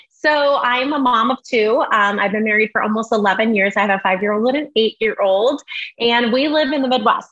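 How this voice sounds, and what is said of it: Slight Southern Illinois twang. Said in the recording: “So I have that twang and that accent a little bit”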